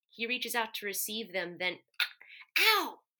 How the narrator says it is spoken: Benji hisses

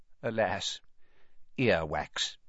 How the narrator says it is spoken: he choked and said

